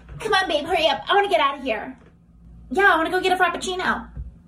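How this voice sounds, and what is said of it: Mean girl character voice. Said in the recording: “this is like the Regina George mean girl, like Queen Bee archetype 100% ... doing her best impression of the quarterback's girlfriend”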